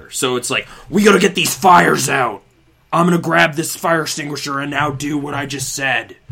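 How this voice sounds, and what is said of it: Imitates a video game character. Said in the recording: “That's a pretty good impression, I gotta say. It's like, not bad.”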